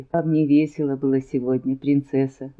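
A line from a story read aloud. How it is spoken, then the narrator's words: Gentle inquiry. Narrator (Russian): Ласково осведомилась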